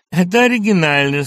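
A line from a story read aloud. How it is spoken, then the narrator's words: Delighted laughing speech. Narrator (Russian): сказал Андрей Ефимович, смеясь от удовольствия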